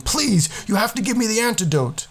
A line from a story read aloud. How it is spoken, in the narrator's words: Othrug coughed up more blood and wildly screamed